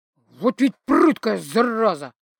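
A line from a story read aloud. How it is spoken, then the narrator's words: Through gritted teeth. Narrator (Russian): процедил мужик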